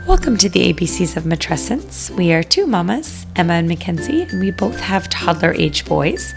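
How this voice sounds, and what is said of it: Deep, raspy, congested voice. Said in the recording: “You have that lovely, deep, raspy voice this evening ... really kind of like sexy, what do they call it? Sexy twang ... the tiniest little cold ever ... mama ends up the one who sounds very plugged up ... just stuffy”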